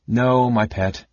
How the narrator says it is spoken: Kitiara called

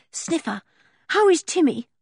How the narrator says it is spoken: asked George anxiously

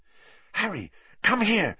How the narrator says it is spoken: she said urgently

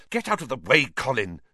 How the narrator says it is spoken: said Harry angrily

